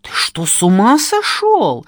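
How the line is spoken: Indignant hiss. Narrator (Russian): Возмущенно прошипела я

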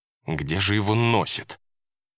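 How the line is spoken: Exasperated, through teeth. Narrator (Russian): не выдержала и процедила

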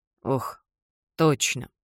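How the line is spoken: Remorseful mumble. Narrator (Russian): бормочет Томас с должным раскаянием

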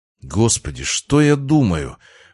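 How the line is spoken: Breathed out. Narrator (Russian): выдохнул

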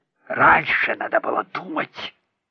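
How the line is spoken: Grumbling fox spirit. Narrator (Russian): проворчал кицунэ

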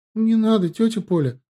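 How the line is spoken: Exclaiming, then sobbing. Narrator (Russian): воскликнула Эмма и разрыдалась

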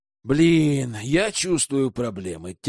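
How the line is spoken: Heavy sigh. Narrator (Russian): тяжко вздохнул Герман

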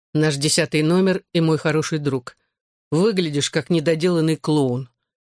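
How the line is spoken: Sighing interjection. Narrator (Russian): вздохнув, вмешался в разговор Хьюи Бикс

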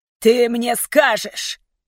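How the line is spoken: Furious growl. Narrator (Russian): яростно прорычал он

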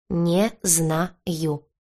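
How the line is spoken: Slow, syllable by syllable. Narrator (Russian): медленно по слогам проговорил рыжий

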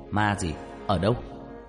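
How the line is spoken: Shouted. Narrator (Vietnamese): ba tôi quát lên

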